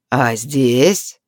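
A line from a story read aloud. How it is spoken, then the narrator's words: Rough, fearful, predatory smile. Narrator (Russian): Грубо уточнил Ниаран, чувствуя страх, хищно улыбаясь, желая поживиться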